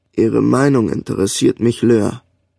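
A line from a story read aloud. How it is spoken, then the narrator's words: Old man speaking softly. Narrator (German): sagte der Alte leise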